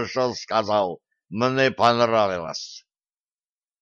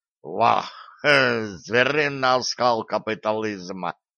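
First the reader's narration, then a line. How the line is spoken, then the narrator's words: Bursting out laughing. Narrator (Russian): расхохотался Шамсуд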